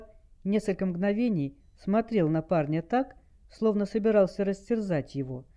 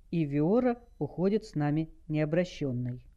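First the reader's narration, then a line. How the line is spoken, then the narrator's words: Calm reply. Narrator (Russian): спокойно ответил Дэйв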